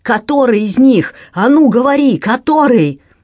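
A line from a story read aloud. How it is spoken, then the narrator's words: Shouting. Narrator (Russian): Брат орал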